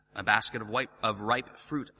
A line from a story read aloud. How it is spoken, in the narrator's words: I answered